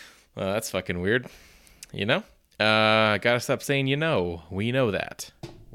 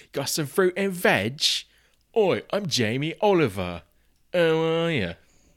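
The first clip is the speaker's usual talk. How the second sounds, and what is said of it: Put-on British accent. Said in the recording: “I've just been talking in a British accent for, you know, a couple weeks. And by talking in a British accent,”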